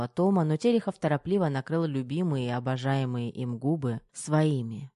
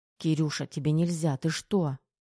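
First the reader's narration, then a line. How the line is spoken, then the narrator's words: Hurried whisper. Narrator (Russian): торопливо зашептала Тома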